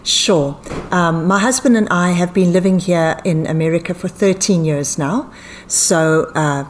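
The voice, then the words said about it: Foreign, non-local accent. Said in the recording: “obviously from your accent, people are going to go, she's not from South Carolina”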